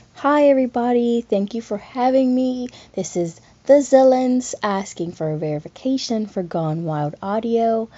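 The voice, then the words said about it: Slight Southern US accent. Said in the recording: “I have a slight southern accent”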